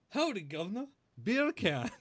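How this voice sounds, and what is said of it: Attempted English accent, rolled R's. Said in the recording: “say beer can in an English accent ... English people don't roll their R's. I'm not sure where you came up with that. Try it without rolling the R.”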